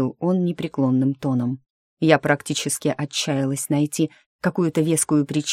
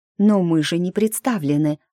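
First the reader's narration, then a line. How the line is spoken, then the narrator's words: Exclamation. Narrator (Russian): воскликнула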